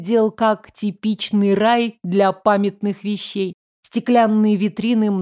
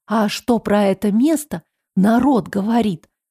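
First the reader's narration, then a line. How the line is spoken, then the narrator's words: Whispered question. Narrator (Russian): Шепотом спросила я у Ксю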